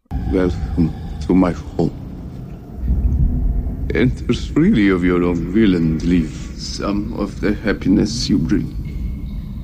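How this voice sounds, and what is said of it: Put-on foreign accent, not convincing. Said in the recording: “But Gary Oldman's wasn't great.”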